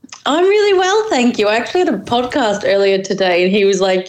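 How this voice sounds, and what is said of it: Unusual, interesting-sounding accent. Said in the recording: “a really interesting accent ... your accent's really weird”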